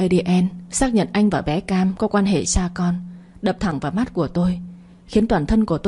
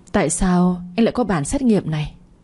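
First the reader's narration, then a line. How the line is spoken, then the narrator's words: Hoarse trembling struggling voice. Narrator (Vietnamese): Giọng tôi khản đặc, cổ họng run run, mãi mới thốt lên thành lời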